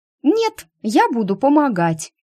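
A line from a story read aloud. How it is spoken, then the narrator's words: Stubborn squeak. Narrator (Russian): упрямо пискнула Лея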